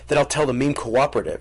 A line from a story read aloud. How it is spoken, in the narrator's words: she said